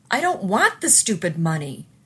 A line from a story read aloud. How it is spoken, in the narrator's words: Charlie yelled